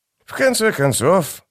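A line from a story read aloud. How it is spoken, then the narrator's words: Dry remark. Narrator (Russian): сухо заметил Дукер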